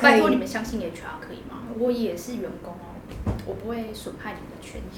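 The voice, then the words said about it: Speaking very quietly. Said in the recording (Chinese): “那你干嘛讲那么小声？”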